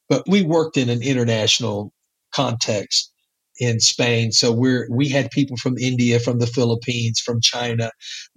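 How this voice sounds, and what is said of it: Texas accent. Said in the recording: “my Texas accent”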